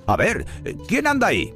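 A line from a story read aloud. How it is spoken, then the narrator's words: Watchman shouting. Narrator (Spanish): El vigilante del cementerio gritó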